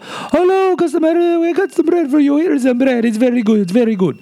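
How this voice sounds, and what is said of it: Bad stereotypical Italian accent. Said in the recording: “my horribly bad stereotypical Italian accent”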